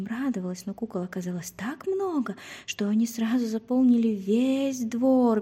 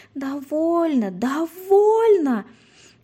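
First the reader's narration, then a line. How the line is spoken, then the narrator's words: Terrified scream. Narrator (Russian): В ужасе закричала Женя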